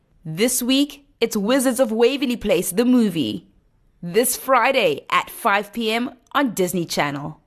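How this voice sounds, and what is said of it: Mindful, chilled, slow read. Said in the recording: “I'm also a yoga instructor, so I can do that mindful, chilled, slow read. Very relaxing.”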